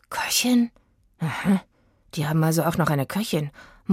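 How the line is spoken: Muttering to himself. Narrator (German): murmelte Oliver mehr zu sich selbst als zu Aggie

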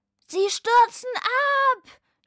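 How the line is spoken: Shouted. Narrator (German): schrie Lukas

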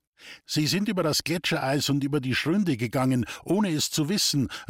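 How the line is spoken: Shoemaker calling out. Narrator (German): rief der Schuster seinem Schwiegervater zu

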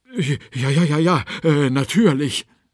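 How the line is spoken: Stuttered. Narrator (German): stotterte

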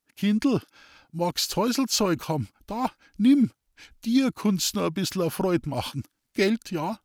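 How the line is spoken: Thin-voiced laughing. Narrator (German): lachte er mit seiner dünnen Stimme

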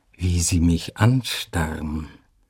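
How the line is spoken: Slow. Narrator (German): sagte sie langsam

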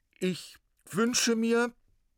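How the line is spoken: Loud and clear. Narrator (German): sagte er laut und deutlich

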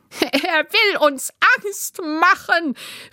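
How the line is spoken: Mocking shout, roaring laughter. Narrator (German): rief der Spitzbart höhnisch, brüllte vor Lachen

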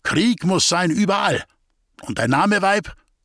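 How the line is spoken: Called out. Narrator (German): rief der Läuterer

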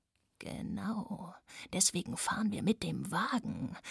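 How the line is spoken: Hiss. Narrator (German): zischte Radek

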